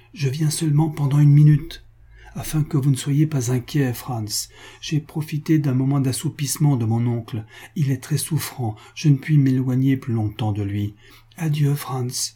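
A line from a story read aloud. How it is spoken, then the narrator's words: Heavy sigh. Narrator (French): ajouta Antonine avec un gros soupir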